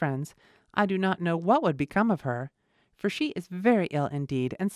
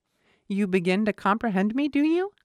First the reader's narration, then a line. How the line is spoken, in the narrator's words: cried he